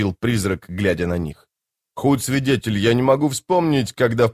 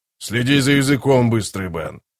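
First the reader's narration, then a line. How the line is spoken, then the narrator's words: Growled warning. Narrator (Russian): прорычал Скворец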